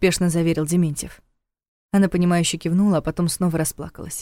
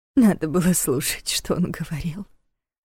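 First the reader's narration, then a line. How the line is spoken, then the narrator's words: Tearful mutter. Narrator (Russian): сквозь слёзы пробормотала женщина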